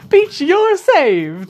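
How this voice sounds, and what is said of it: Mario character voice impression. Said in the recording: “that's actually a pretty good Mario impression ... It wasn't bad, yeah.”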